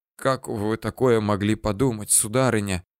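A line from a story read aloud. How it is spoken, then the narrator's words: Hoarse, strained voice. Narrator (Russian): Отчего-то осипшим голосом еле выдавил я из себя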